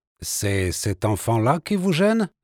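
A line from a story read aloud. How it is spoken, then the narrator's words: Foreign accent. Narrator (French): dit-il avec un accent étranger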